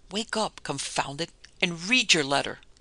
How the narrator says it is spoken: In a frenzy of impatience, exclaimed

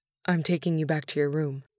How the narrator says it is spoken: he replied, his voice husky from crying

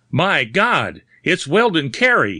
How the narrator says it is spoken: he shouted, in sudden horror

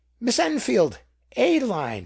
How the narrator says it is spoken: exclaimed

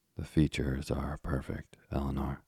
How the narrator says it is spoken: answered Walter

